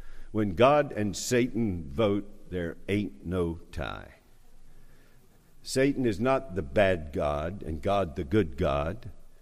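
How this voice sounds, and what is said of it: North Charleston Southern accent. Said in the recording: “pardon my North Charleston accent”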